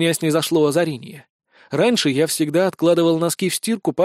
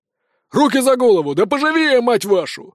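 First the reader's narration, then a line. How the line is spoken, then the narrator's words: Barked command, big sheriff. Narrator (Russian): гаркнул тот, что был самый крупный и с золотой звездой шерифа на груди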